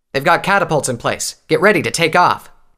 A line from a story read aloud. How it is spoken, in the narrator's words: Tailwind barked